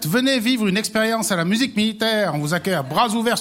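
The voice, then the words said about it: Swiss Valais French accent. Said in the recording (French): “l'accent de ton invité? ... Il a son accent. ... Valaisan.”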